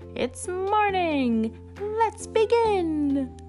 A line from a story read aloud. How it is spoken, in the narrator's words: 5 birthday monsters yell